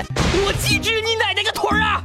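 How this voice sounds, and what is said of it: Catchy Sichuan accent, Feng Baobao. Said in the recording (Chinese): “魔性的四川口音，听多了也意外的带感啊”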